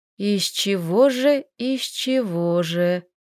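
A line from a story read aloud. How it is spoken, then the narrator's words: Mutter. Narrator (Russian): бормотала Лилька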